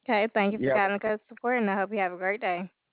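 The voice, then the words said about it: Southern-sounding American accent. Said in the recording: “With your accent? ... I thought you were from the South ... Your accent just sound like you're from the South.”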